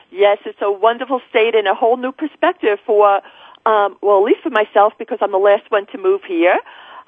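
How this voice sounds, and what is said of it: New York accent. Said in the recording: “you do have that New York accent.”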